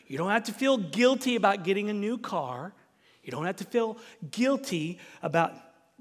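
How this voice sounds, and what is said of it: Southern American accent. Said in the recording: “that's my southern accent coming out. Instead of saying feel, I'm saying feel.”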